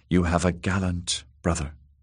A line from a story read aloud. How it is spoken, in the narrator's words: whispered